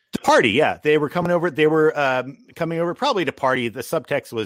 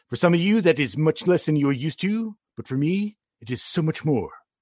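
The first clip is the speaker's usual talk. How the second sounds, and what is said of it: Imitates Comic Book Guy cartoon voice. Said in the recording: “As a comic book guy would say later ... Good impression.”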